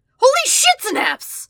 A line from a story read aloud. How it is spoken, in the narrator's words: shrieks